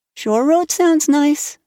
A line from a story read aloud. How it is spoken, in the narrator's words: said Anne dreamily